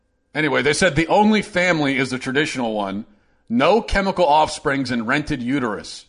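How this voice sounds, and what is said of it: Usual voice. Nothing is said of it.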